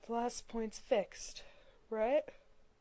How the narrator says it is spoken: Dean asked, struggling to speak around a yawn

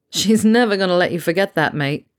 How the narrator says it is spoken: Harry laughed

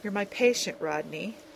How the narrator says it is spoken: Carson sighed softly

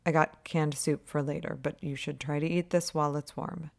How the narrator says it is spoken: Holtzie's murmuring

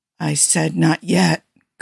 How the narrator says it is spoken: Kirk muttered

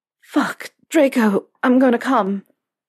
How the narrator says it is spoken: he gasped out

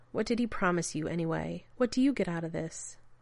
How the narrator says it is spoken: Rodney smiled bitterly

